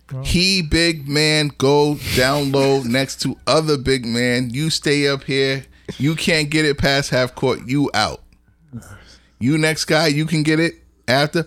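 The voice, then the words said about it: Put-on broken-English accent. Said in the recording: “Pardon the accent.”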